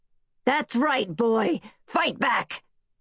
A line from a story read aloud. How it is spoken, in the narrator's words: Hatchet shouted